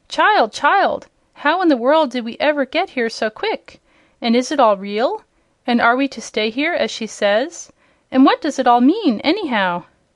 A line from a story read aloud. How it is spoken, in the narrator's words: Dorothy laughed